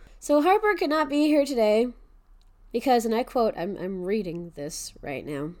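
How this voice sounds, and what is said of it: Wonky, sick-sounding voice. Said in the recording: “My voice is still wonky because ... I'm still sick ... some kind of throat thing”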